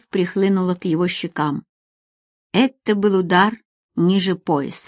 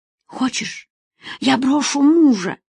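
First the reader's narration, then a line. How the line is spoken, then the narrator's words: Woman's whisper. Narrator (Russian): прошептала женщина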